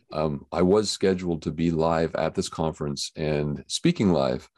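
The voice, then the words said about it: Unusually deep, sick-sounding voice. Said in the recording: “my voice is really deep right now ... I tested positive for COVID”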